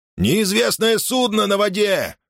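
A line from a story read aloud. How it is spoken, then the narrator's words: Sailor shouting. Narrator (Russian): закричал кто-то из матросов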